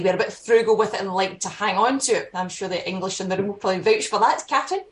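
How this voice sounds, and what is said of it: Scottish accent. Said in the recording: “you can probably tell from my accent, I'm, I'm Scottish”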